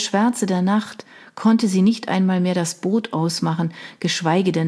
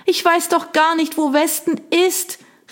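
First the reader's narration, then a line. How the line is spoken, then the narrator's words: Shout lost in the wind. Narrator (German): rief sie, aber der Wind riss ihr die Worte von den Lippen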